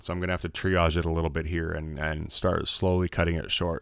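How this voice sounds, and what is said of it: Hoarse, failing, sick-sounding voice. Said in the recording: “I'm truly losing my voice and getting more and more sick as this podcast goes on ... I am getting admittedly very sick”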